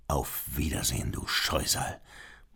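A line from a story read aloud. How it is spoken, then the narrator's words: Murmur. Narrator (German): murmelte Beethoven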